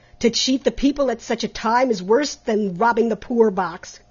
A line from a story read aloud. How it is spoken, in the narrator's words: cried Trent angrily